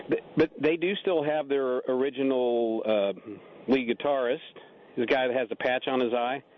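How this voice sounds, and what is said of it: Usual voice. Nothing is said of it.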